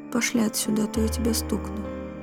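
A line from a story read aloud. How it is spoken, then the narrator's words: Quiet. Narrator (Russian): Анна тихо сказала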